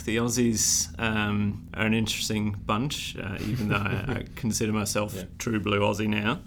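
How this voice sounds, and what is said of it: Blended Sheffield and Australian accent. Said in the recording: “you picked up the accent slightly as well. ... A little bit. It's a strange blend of a bit of Sheffield and a bit of Australian now.”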